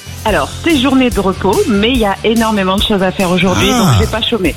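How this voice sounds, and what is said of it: Slight regional French accent. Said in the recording (French): “il y a le petit accent, je reconnais bien sûr”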